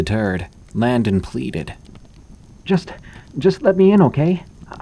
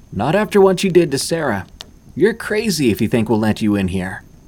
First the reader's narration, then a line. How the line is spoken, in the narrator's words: Lashandra yelled back